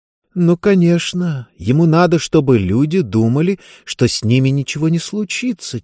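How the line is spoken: Quiet. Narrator (Russian): тихо проговорила она

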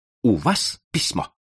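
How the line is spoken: Sharp question. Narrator (Russian): резко спросил я

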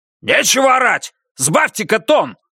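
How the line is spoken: Bark. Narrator (Russian): рявкнул Баннерман

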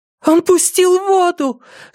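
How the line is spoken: Shouted. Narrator (Russian): закричала она

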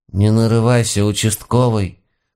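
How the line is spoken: Deeply sad grandmotherly mutter. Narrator (Russian): с глубокой печалью в голосе буркнула моя бабушка

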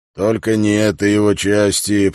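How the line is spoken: Displeased grumble. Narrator (Russian): пробурчал он недовольно

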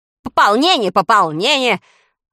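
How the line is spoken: Irritated interruption. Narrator (Russian): раздраженно перебил его министр

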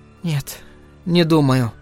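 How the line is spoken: Tearful speech. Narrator (Russian): Венди сквозь слезы сказала

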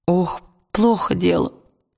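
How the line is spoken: Groaned. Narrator (Russian): простонал сосед Уилла

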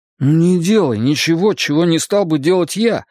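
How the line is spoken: Pleading. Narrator (Russian): взмолился он

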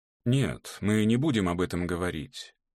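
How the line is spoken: Soft, gentle. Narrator (Russian): мягко повторил Мартин

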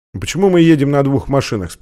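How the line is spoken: Plain question. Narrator (Russian): спросил Стэнли

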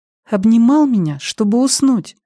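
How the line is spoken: Thin little voice. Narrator (Russian): пояснила Беверли своим тонким голоском

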